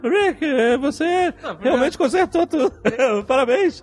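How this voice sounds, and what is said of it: Awkward imitation of cartoon character. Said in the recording (Portuguese): “não tentar imitar o Morty, porque tá meio patético você tentar ... tá meio esquisito”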